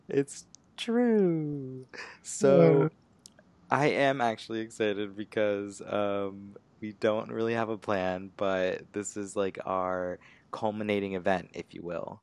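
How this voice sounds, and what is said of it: Sleepy drawling low-energy voice. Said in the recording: “It always sounds like the same sleepy drawl.”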